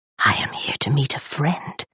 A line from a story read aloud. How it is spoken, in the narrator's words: she breathed